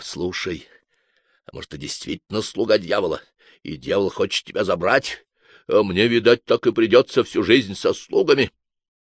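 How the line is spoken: Last word too loud. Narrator (Russian): Последнее слово инквизитор сказал излишне громко

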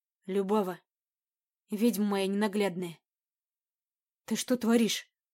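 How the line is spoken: Hoarse, coming to. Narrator (Russian): Прохрипел Райс, приходя в себя

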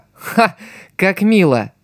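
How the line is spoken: Laughing. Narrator (Russian): засмеялся Икки

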